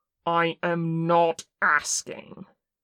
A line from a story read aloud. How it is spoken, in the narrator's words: Kim snarled